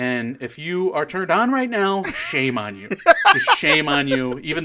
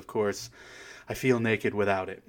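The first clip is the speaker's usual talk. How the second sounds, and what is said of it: Put-on sexy voice. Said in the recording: “I gave you my best sexy voice ... That was your best sexy.”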